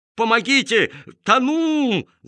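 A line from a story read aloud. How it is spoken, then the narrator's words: Panicked drowning yell. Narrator (Russian): завопил мистер Маркоу, барахтаясь в воде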